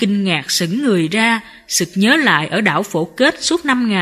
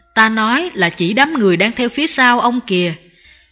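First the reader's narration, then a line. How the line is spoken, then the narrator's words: Smiling. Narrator (Vietnamese): Sư phụ mỉm cười nói tiếp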